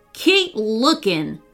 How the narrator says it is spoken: snapped Wayne to Queenie

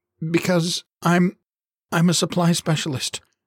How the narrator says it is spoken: stammered

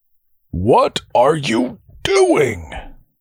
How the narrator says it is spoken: Darl cried

